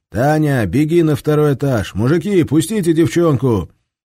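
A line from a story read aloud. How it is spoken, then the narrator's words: Shout. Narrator (Russian): крикнул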